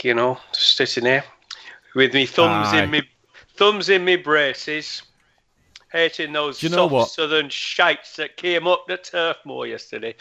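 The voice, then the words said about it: Put-on northern English accent. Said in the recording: “talk in a northern accent as well ... gone, Geordie ... you did a bit, didn't you?”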